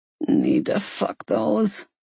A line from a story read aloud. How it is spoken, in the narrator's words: Maddox grunted